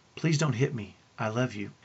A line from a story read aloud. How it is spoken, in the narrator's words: with tears in my eyes, and I gently said